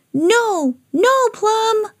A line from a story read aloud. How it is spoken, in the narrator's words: cried Sam